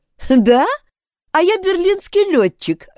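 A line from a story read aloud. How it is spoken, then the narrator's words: Young woman laughing. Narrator (Russian): рассмеявшись, ответила девушка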